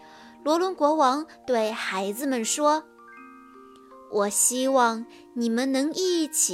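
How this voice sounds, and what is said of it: Usual voice. Nothing is said of it.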